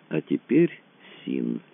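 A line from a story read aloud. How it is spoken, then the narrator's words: Slow. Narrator (Russian): медленно заговорил Рэндалл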